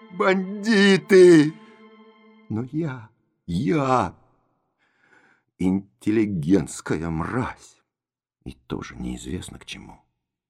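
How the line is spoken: Sobbing shout. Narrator (Russian): Бакалейников всхлипывая, выкрикнул

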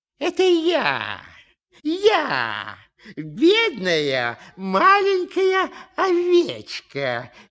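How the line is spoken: Wolf's squeaky disguised voice. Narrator (Russian): чужим голосом пропищал волк

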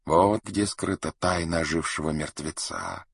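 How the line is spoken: Whisper. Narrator (Russian): шептал дервиш

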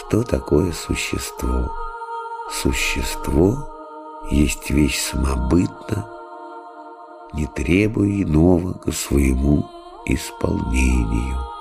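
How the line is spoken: Low voice. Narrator (Russian): Отец Христофор сказал вполголоса

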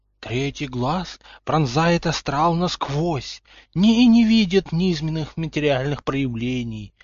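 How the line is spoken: Sepulchral fortune-teller voice. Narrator (Russian): замогильным голосом ответила предсказательница

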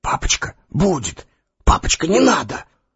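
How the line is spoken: Embarrassed boys whispering. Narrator (Russian): братья Ани, Петя и Андрюша, гимназисты, шептали сконфуженно

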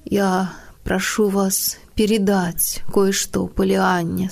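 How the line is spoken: Plain. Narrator (Russian): сказал он

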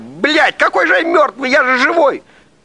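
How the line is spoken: Man shouting. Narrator (Russian): мужчина закричал

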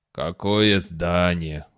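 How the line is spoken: Weary question. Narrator (Russian): устало спросил полковник

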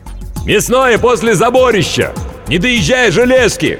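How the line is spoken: Loud bark. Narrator (Russian): гаркнул микроб

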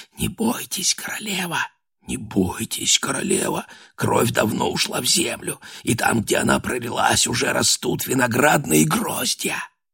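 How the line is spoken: Whispering voices. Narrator (Russian): чьи-то голоса, чьи она не разобрала, шепнули в оба уха

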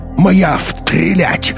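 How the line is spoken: Roared. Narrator (Russian): взревел Уф

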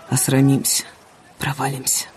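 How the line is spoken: Nervous mutter, shivering cold. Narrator (Russian): он, пожимаясь от холода и волнения, бормотал

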